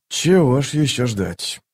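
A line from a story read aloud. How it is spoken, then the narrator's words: Muttering. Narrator (Russian): пробормотал он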